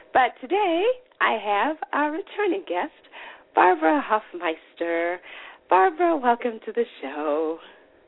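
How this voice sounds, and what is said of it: Rattly, raspy voice. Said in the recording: “I'm feeling a little under the weather, so my voice is a little bit rattly and raspy.”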